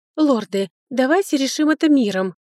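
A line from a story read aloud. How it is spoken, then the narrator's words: Pleading. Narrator (Russian): взмолилась она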